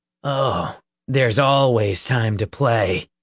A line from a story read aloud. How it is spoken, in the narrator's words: Peter replied, his voice cold and hard